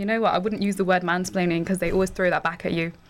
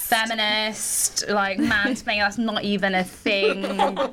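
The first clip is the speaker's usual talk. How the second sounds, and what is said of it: Put-on mocking accent. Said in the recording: “What is that accent?”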